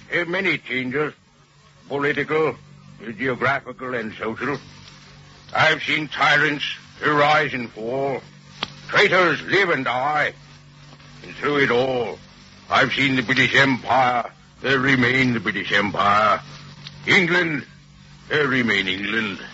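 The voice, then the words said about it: Convincing Winston Churchill impression. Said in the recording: “A perfect impersonation. ... Oh, that's Churchill, all right. You could sure fool me. ... All those voices, it's fantastic.”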